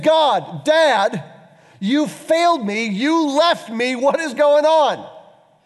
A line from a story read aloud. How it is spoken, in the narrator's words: He screams